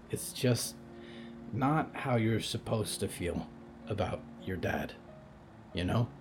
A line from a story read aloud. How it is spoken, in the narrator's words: Percy whispered